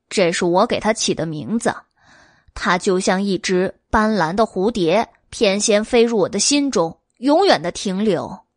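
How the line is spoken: Dreamy murmur. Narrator (Chinese): 黎奴喃喃的说道

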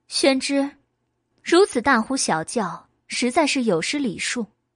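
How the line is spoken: Calm, detached. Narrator (Chinese): 白姬淡淡的说

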